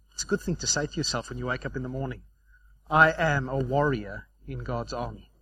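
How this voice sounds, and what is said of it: Regional accent, warrior sounds like worrier. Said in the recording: “Don't be a warrior, as in W-O-R, be a warrior. And with my accent, you don't know which one I just said.”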